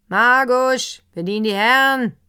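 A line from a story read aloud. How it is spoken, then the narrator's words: Innkeeper calling out. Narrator (German): rief der Wirt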